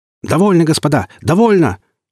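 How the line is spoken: Ragged group shouting. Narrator (Russian): в разнобой закричали все трое секундантов Григорянского

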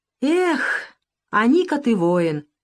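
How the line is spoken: Sighing. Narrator (Russian): вздохнула хозяйка

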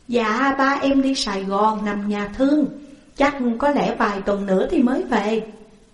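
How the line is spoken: Smiling reply. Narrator (Vietnamese): Nhan mỉm cười rồi đáp

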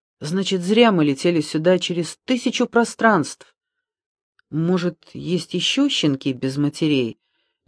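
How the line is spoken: Uncertain question. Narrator (Russian): неуверенно спросил Минька

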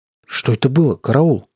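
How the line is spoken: Trembling voice. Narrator (Russian): спросил я вздрагивающим голосом

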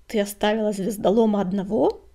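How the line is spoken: Growl. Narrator (Russian): зарычал коготь

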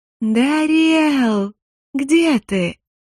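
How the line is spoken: Sugary drawn-out voice. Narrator (Russian): Елейным голоском протянула я

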